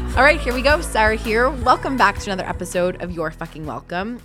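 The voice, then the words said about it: Sick-sounding voice. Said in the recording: “you can probably hear it in my voice that I'm a little bit sick”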